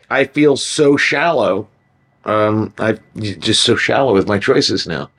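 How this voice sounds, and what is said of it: Sarcastic delivery. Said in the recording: “I was just being sarcastic.”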